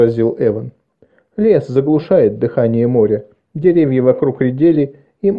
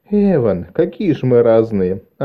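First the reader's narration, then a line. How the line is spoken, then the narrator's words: Delighted laughing. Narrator (Russian): рассмеялась, почему-то обрадовавшись этому контрасту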